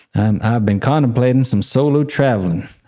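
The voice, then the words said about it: Weak attempt at Georgia accent. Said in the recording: “I live in Georgia. Should I do the accent? Can't really do it... I can't do accents. Just can't do them.”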